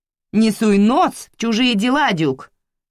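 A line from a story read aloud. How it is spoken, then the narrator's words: Shouted reply. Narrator (Russian): крикнула в ответ Карла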